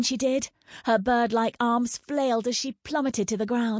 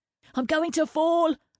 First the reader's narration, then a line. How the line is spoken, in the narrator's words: Brigger yelped